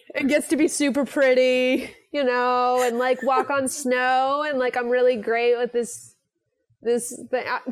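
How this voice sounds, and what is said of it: Valley Girl voice. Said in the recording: “do that Valley Girl voice”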